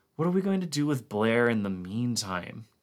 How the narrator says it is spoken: Gary asked wearily

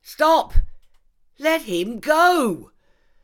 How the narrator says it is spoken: screamed at Silk

